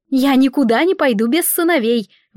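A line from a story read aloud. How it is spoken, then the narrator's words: Shouted out. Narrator (Russian): выкрикнула Радира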